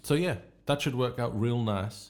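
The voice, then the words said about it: Mixed Yorkshire and American accent. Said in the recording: “a hybrid ... Got a hybrid between Yorkshire and America.”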